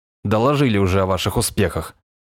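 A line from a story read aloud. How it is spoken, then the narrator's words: Grumbling. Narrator (Russian): проворчал майор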